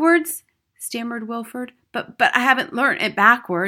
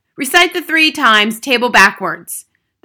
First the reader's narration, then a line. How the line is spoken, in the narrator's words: the Trunchbull barked